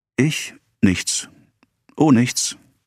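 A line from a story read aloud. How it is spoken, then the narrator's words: Stammering. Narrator (German): stammelte Emma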